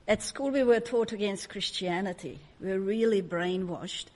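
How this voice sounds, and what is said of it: Hungarian-accented English. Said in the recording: “judged by my name and my accent, you can tell that I wasn't born in Australia. I was born in Hungary”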